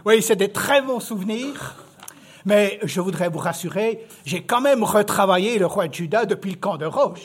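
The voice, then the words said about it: Swiss French accent. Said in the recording (French): “accent suisse ce matin. Parce que même 30 ans en France, ça m'a pas enlevé mon accent suisse.”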